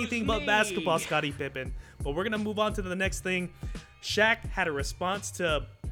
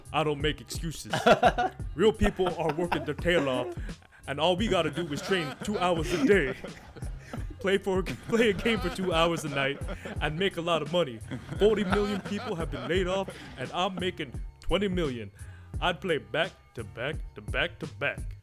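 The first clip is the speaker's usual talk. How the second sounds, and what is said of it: Shaquille O'Neal impression. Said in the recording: “you gotta do it in a Shaq voice.”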